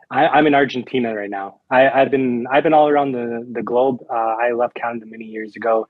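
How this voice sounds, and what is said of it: Canadian accent. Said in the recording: “I could hear it. You said a boat. I can hear it right off the bat. ... you can definitely tell by the accent.”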